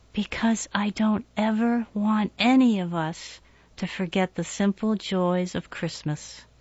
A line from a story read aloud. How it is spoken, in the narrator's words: whispered